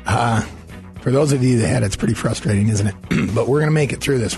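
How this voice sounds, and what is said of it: Hoarse, strained voice from laryngitis. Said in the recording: “apparently my laryngitis has not cleared up over the break”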